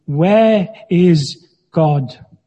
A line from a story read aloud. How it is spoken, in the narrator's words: was a huge man with a booming voice, said sternly